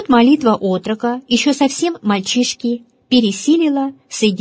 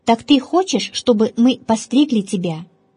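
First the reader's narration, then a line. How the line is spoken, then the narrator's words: Plain. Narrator (Russian): спросили они Пимена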